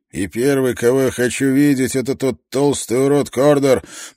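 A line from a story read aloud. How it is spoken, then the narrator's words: Muttering. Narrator (Russian): пробормотал он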